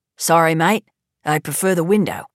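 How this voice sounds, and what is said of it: Broad Australian accent. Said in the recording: “says in a broad Australian accent”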